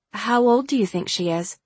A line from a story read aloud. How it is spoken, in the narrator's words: I asked